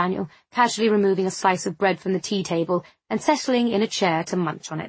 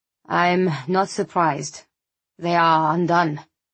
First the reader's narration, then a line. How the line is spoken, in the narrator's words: the professor sighed